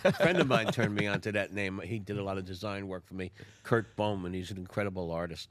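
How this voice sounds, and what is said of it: North Jersey accent. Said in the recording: “Where's your accent from? ... North Jersey. ... Oh, I could tell.”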